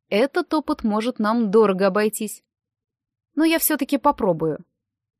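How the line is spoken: Calm. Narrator (Russian): Мистер Берр спокойно сказал

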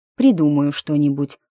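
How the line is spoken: Muttered. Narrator (Russian): буркнула я

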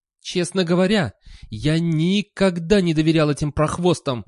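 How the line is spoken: Roar. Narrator (Russian): взревел он

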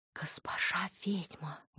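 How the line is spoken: Admiring whisper. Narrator (Russian): восхищенно зашептал вор

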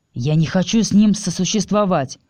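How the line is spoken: Irritated. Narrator (Russian): раздраженно сказал Стил

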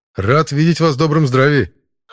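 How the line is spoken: Wry chuckle. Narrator (Russian): хмыкнул я

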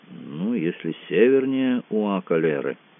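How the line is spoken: Relieved mutter. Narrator (Russian): с видимым облегчением буркнул Кацуба

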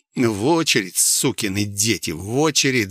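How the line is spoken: Angry growl. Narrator (Russian): злобно прорычал я

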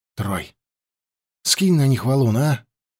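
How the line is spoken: Worried request. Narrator (Russian): попросил Фандор озабоченным голосом

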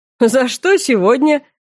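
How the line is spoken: Short chuckle. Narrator (Russian): хохотнул Вайерт

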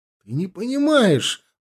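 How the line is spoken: Exclaiming. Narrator (Russian): воскликнул он

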